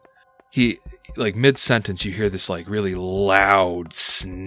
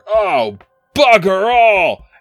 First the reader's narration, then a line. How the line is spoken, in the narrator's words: a large guttural roar coming from within the trees